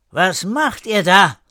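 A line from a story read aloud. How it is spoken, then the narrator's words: Sudden call. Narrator (German): Plötzlich rief jemand den Kindern zu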